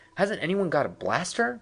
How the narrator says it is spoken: frantically

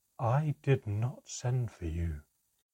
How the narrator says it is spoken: whispered, a strange note of something like fear in his voice

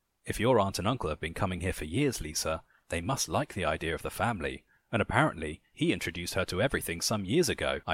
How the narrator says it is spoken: I said, as calmly as I could, while my heart raced

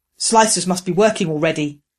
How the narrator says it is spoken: Growler said through the link

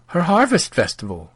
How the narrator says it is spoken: the priest chuckled

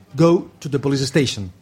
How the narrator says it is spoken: he answered

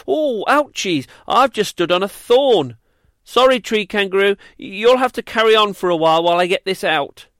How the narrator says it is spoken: he let out a little squeal and said

